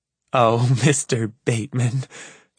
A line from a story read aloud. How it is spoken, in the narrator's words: she giggles